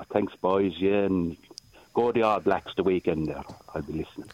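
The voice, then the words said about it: Irish accent. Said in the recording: “good, strong Irishman in New Zealand ... that's a good accent ... He's faking it”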